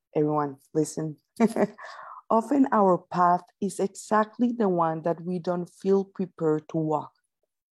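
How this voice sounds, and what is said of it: Non-native English accent. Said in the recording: “my amazing English ... Your English is charming ... with my accent”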